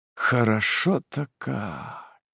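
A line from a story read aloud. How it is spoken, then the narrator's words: Drawling. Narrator (Russian): протянул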